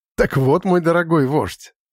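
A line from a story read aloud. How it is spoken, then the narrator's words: Laughing. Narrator (Russian): рассмеялся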